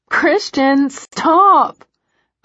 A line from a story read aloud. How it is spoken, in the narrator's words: I plead